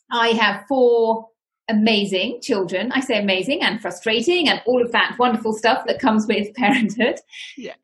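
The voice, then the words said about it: British accent. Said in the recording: “I am from the United Kingdom, as you may be able to tell from my accent.”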